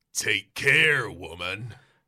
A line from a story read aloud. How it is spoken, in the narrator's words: You growl threateningly